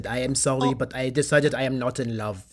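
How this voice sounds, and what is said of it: Put-on French accent. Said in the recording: “he's with a French accent.”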